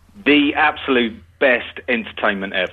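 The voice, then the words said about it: Sarcastic, mocking delivery. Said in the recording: “that's taking the P voice. Yeah, that's worse ... being sarcastic”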